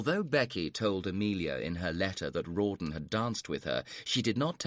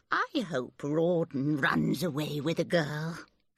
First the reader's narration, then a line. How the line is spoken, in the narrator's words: she added dreamily